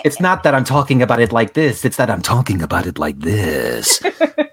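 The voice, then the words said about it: Sultry, seductive voice. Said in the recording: “It's the sexy voice that makes it bad.”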